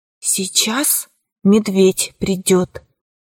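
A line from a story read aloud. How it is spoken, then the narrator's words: Whispered. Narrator (Russian): сказала Ура шепотом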